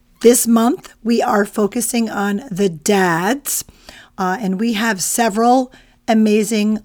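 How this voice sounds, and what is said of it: Weakened, impaired voice. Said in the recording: “my voice isn't. ... welcome to allergy season ... this is the best my voice has been in days ... my apologies for how I sound”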